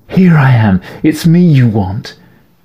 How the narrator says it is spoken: Eleanor screamed

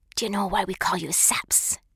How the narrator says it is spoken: hissed in my ear, her voice as sharp as a pinch

